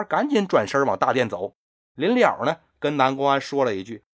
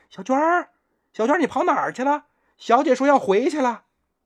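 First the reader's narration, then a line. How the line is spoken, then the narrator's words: Distant call. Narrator (Chinese): 大殿那边啊有人喊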